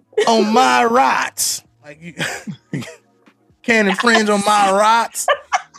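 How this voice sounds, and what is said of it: Put-on American country accent. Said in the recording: “Where you get that accent from? ... them boys from the country.”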